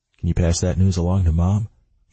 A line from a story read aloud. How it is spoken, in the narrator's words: he asks, smiling